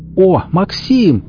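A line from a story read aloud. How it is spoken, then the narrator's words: Yelled from behind. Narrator (Russian): заорали позади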